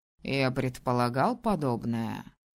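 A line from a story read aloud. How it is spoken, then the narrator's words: Smirking grunt. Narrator (Russian): хмыкнул правитель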